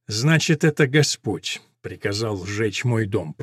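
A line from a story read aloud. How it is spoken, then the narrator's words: Grumbling nobleman. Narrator (Russian): пробурчал барон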